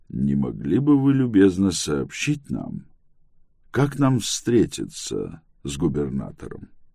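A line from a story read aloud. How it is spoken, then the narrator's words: Soft speech. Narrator (Russian): Притчер мягко проговорил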